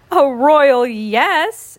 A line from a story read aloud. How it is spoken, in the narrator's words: exclaimed Prince Wednesday